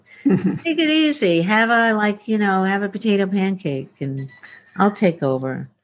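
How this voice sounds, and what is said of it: Put-on Jewish accent. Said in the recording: “I have a Jewish God, so it's a Jewish accent.”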